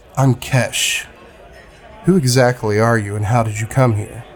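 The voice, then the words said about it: Mellow character voice. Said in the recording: “in a mellow voice,”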